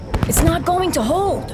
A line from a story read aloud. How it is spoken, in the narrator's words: Nico yells through wind and gunfire